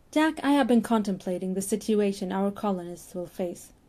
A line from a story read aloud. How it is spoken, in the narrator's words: said, his voice casual